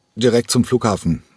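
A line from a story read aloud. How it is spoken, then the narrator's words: Plain. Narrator (German): sagte Cranko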